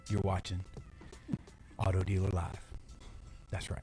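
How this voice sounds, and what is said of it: Deep, sultry sexy voice. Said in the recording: “I'm going to talk in my sexy voice. ... Like Barry White”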